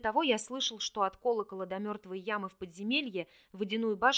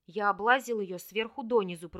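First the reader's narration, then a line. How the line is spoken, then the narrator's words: Grumbling mutter. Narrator (Russian): пробурчал Рин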